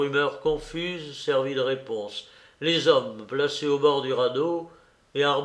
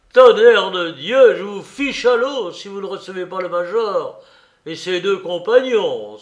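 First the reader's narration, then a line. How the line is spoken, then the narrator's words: Soldier's furious exclamation. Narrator (French): s'écria le grenadier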